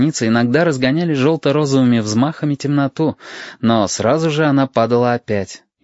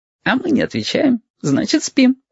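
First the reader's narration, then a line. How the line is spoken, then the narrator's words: Giggling. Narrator (Russian): хихикнул Яшка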